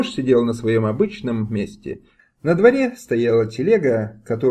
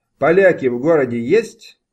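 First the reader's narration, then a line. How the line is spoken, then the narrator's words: Shouting. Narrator (Russian): закричал на него Тимош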